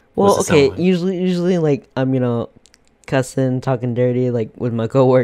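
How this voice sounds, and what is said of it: Usual voice. Nothing is said of it.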